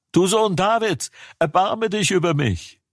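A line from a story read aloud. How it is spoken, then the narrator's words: Shouting even louder. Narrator (German): Er aber schrie noch viel mehr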